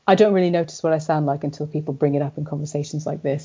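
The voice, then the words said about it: Mid-Atlantic accent, US-UK blend. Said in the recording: “my strange twonky accent, as you call it ... they call it mid-Atlantic”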